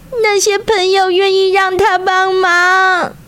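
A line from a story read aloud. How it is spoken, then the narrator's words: Squirrel shouting. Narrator (Chinese): 松鼠大叫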